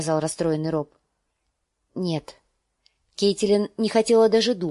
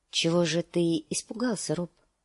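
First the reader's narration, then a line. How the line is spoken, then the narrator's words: Soft question. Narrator (Russian): спросила она мягко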